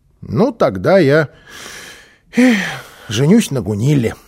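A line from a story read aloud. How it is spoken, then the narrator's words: Little boy's sigh. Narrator (Russian): вздохнул малыш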